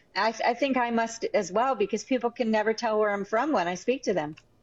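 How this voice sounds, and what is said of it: Mixed accent with some New York. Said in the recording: “you have your own whole unique accent ... it's a bit of everything, isn't it? You've got a bit of New York, bit of wherever.”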